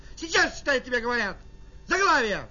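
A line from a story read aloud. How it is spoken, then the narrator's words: Shouting woman. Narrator (Russian): Пока она кричала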